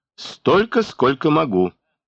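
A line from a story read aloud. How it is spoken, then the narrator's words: Mocking, scornful. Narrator (Russian): Миконор, будто смеясь над его бессилием, сказал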